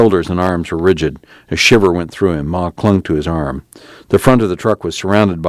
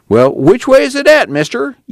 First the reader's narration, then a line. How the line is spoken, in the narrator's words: Tom whined